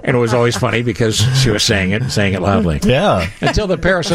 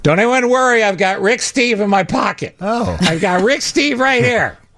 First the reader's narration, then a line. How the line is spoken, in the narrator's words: she kept saying in a very loud voice